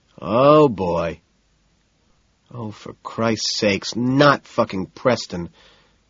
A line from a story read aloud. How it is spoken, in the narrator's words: Price sighs